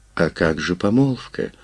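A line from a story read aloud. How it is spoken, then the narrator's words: Confused, crestfallen question. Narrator (Russian): Растерянно, упавшим голосом спросила Вольская Валуа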